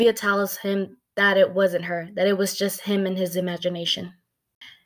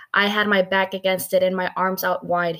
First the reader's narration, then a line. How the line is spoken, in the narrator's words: he says